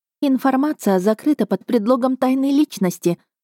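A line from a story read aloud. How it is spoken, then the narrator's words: Sigh. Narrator (Russian): вздохнула Эва Лотта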